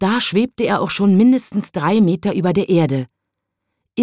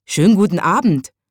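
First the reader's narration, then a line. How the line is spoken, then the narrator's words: Cheerful call, small watchman. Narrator (German): rief der kleine Nachtwächter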